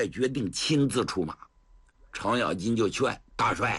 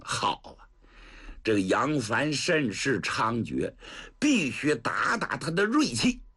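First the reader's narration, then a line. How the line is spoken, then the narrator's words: Cold sneer. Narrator (Chinese): 薛元帅冷笑一声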